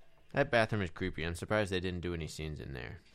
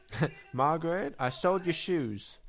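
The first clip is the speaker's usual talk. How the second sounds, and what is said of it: Poorly done put-on accent. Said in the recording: “That was a horrible accent”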